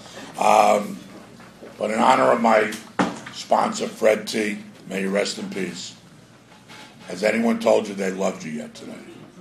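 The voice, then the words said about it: Strained, fading hoarse voice. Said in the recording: “my voice is really going. It's getting serious, so I'm going to try to keep it toned down”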